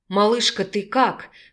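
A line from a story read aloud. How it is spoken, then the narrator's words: Anxious hoarse voice. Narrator (Russian): взволнованно прохрипел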